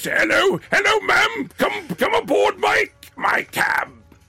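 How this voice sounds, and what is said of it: Put-on character voice. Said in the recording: “if I do a voice like that ... you sound like Brian Blessed”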